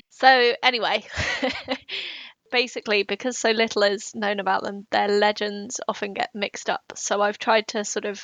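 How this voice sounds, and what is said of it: British accent. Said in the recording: “Just by your British accent”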